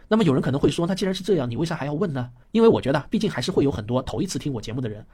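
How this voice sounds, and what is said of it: Accented Mandarin, flat and retroflex confused. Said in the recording (Chinese): “听不惯我口音的人 ... 勉强能忍受我的口音 ... 还是很希望听到我能够分清楚平翘舌”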